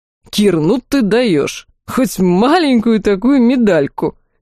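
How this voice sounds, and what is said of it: Mocking parody of narrator's phrase. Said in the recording (Russian): “Спародировал он мою фразу”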